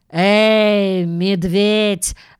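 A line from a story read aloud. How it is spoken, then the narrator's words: Growled. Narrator (Russian): рыкнул он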